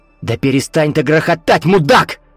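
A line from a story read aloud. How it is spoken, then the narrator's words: Yelling, losing control. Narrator (Russian): заорал Виктор, уже не в силах сдерживаться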